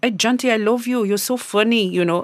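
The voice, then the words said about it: Bad put-on Italian accent. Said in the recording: “That is a gammon Italian accent... That is so gammon.”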